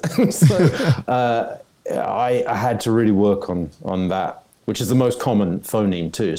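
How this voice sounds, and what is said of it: Convincing American accent. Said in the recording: “when they're trying to do an American accent. And I did not know you were British.”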